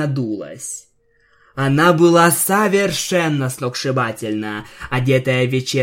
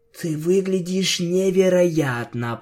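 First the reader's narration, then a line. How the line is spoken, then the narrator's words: Whisper. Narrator (Russian): прошептала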